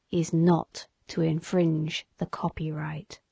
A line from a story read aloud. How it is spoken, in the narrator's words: he spoke it solemnly